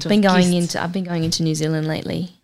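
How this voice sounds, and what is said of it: Put-on New Zealand accent. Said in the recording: “New Zealand accent.”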